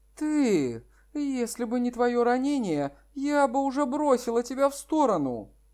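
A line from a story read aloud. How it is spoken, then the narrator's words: Slightly indignant. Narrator (Russian): сказала Лан Сюэже немного возмущенно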